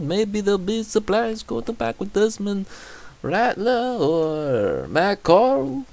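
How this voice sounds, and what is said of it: Put-on French accent. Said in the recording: “French okay? Accent. I don't know. I just randomly switched to that accent.”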